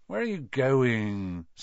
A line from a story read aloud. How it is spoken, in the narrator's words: said Ron sleepily